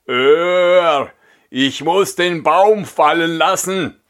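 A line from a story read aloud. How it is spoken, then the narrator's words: Exhausted giant calling out. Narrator (German): Der Riese, nachdem er ein Stück Wegs die schwere Last fortgeschleppt hatte, konnte nicht weiter und rief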